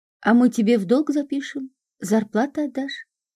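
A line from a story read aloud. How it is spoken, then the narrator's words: Chuckling. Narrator (Russian): хохотнул Вовка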